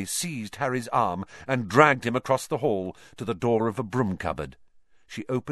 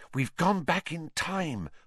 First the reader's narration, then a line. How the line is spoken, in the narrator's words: Hermione whispered